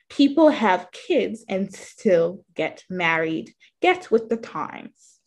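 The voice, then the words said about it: Put-on British accent. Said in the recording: “There's my British accent.”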